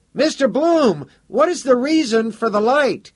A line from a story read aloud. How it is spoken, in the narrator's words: Someone called out